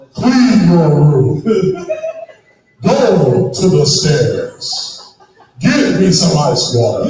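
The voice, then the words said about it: Large, booming dad voice. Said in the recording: “that's what my large voice does ... I have that dad voice.”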